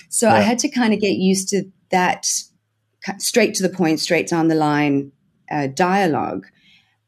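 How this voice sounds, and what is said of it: South African accent. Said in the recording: “with a South African accent, you are constantly asked, oh, you're from the UK. Oh, you're from Australia.”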